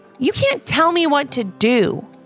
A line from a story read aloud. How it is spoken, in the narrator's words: snapped Liam